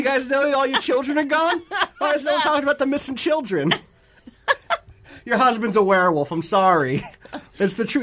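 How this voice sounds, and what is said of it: Put-on New York Brooklyn accent. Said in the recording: “This witcher has adopted a very weird accent ... You know Geralt is from Brooklyn? ... The New York witcher.”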